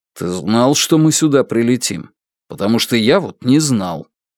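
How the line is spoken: Irritated question. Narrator (Russian): Лун раздраженно спросил его

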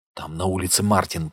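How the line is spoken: Whisper. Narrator (Russian): прошептала она

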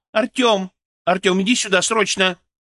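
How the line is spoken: Shouting down hallway. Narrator (Russian): Вероника крикнула в коридор

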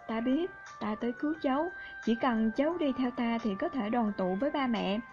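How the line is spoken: Lowered voice. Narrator (Vietnamese): cũng hạ giọng

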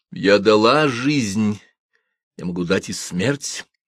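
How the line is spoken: Cold, eerily calm. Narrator (Russian): она объявила холодно и спокойно, с ужасающим спокойствием

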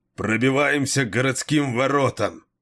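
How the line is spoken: Desperate roar. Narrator (Russian): проревел Кейн, зная, что их уже ничто не спасет

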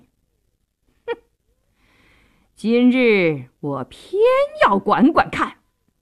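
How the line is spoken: Defiant cold sneer. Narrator (Chinese): 杜世清一点也不示弱，冷笑一声

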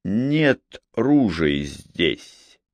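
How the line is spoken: Slow speech. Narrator (Russian): медленно произнес Макфей

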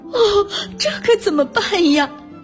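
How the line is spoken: Anxious crying. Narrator (Chinese): 崔西太太急得哭了起来

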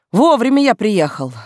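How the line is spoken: Satisfied snort, cop. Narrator (Russian): довольно хмыкнул опер

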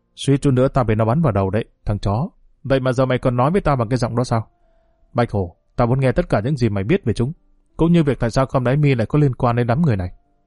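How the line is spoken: Harsh, emphatic voice. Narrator (Vietnamese): Hường gằn giọng

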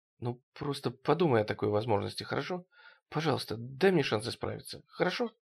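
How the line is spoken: Very quiet speech. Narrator (Russian): Очень тихо Кэрол произнесла

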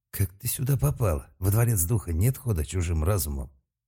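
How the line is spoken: Tense voice. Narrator (Russian): сказал Малк напряженным голосом

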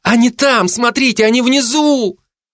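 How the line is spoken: Sudden shout. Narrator (Russian): Рима Аверьянова вдруг закричала

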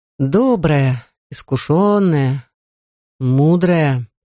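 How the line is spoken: Slow, savoring each word. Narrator (Russian): медленно повторила Лейла, смакуя каждое слово

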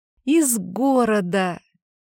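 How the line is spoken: Giggling. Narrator (Russian): Хихикнула я

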